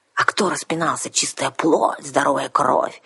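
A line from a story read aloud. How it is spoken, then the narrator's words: Angry hiss, female mercenary. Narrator (Russian): сердито прошипела наемница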